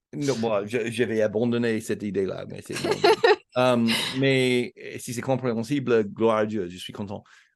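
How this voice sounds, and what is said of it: Strong foreign accent in French. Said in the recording (French): “en mon français, j'ai toujours cet accent affreux ... c'est dur de perdre un accent.”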